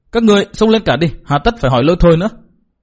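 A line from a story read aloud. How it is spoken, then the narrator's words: Resentful, sullen. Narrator (Vietnamese): Nàng ta hậm hực nói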